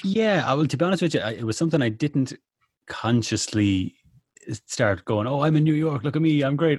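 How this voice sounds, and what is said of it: Irish accent. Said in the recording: “you can tell by the accent, I'm still very much an Irish lad. Anyway, still a lad from the bog.”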